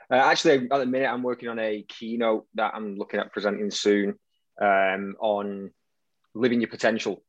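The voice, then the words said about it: Strong Manchester accent. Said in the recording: “this very strong Manchester accent”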